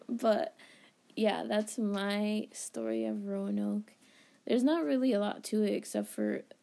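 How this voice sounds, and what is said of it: Slightly raspy voice. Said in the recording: “my voice is a little... I feel like it's a little raspy”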